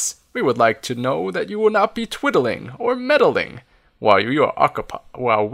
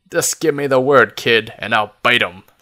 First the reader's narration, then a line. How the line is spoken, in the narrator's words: snarls Fox